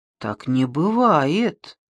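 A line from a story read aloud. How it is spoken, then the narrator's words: Uncertain objection. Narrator (Russian): неуверенно возразил Шамбамбукли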